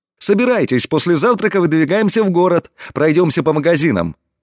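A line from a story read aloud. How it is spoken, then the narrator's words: Cheerful. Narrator (Russian): весело произнес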